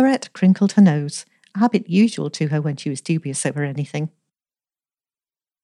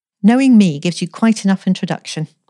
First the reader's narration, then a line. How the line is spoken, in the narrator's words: said Elsie firmly